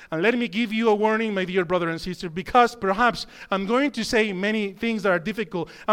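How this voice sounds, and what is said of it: Speaks with a noticeable accent. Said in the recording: “perhaps because of my countenance and my accent, you might take words in a difficult way”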